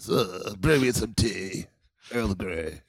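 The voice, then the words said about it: Old upper-crust British accent. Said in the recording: “Is that a British accent? ... Oh, that's a very old British accent. ... Oh, that's like old English. ... Oh, upper crust.”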